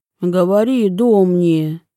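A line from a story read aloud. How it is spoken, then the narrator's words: Deep voices from behind. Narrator (Russian): пробасили сзади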